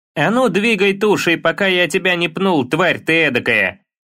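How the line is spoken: Shouting small bearded man. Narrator (Russian): крикнул низенький бородатый человечек с синей кожей, ростом не выше Атрея

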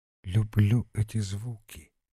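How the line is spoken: Quiet. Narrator (Russian): тихо молвил Евангел

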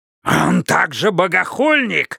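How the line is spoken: Hoarse cry. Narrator (Russian): хрипло вскрикнул Иерусалим

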